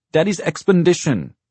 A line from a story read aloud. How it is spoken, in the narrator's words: Blakey cried, happy to be of help